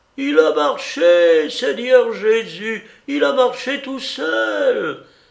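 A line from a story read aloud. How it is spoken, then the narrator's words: Old servant exclaiming. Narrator (French): s'écria la vieille servante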